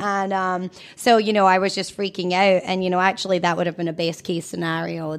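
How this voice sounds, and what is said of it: Scottish accent. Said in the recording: “you can tell she has a Scottish accent ... She's from Scotland.”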